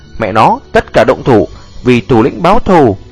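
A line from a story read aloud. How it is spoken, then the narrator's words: Angry shout. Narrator (Vietnamese): Tên béo ngốc giận dữ hét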